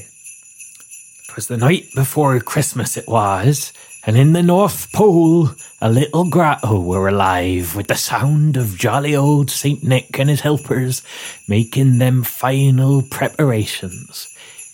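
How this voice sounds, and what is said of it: Put-on West Country accent. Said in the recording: “I'm trying to remember the accent. ... Do you remember how he spoke? ... He was West Country.”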